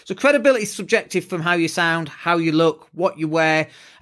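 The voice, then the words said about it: Yorkshire accent with a slight lisp. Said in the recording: “I've got this lispy thing going on. I've got a Yorkshire accent”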